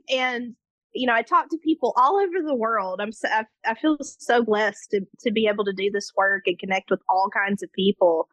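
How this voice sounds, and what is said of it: Warm Memphis, Tennessee accent. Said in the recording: “I currently live just outside of Memphis, Tennessee in the United States... my accent... It's just like a big warm hug. I just love your accent... it's like hot honey on a warm biscuit”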